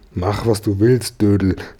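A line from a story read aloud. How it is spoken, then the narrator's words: Plain. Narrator (German): sagte der Josef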